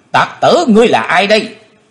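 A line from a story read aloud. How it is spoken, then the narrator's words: Loud shout. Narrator (Vietnamese): tiếng quát của Tần Phương Lan thét lớn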